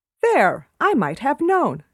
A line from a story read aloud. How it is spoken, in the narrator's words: she exclaimed